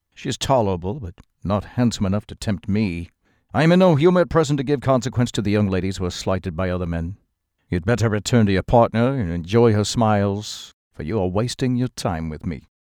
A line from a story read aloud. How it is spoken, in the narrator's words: coldly said